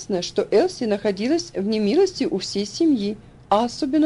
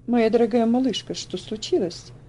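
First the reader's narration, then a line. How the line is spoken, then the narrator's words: Gentle, sympathetic voice. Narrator (Russian): Спросил он ласковым голосом, полным сочувствия и доброты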